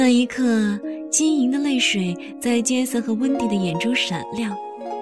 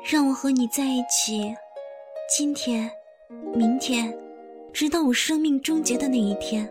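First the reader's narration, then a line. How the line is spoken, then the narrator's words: Soft, tender, loving. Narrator (Chinese): 温迪轻声的、温柔而充满深情地说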